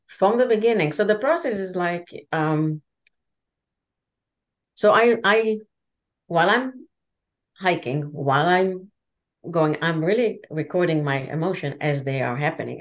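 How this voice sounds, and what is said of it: Speaks with a non-native accent. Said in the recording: “he doesn't understand my accent”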